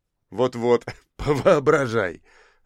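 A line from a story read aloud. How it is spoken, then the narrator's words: Laughing. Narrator (Russian): рассмеялся Крымов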